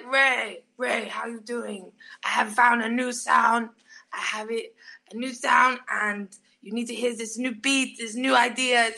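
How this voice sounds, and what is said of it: Imitates another person's voice. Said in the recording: “I'm really good at doing his impression now.”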